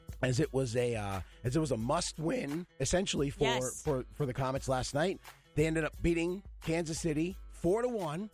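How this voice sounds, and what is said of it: Strained, hoarse voice. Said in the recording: “I apologize for my voice.”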